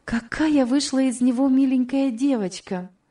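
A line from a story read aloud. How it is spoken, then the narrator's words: Exclamation. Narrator (Russian): воскликнула Элиза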